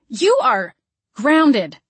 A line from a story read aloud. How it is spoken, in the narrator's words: I yelled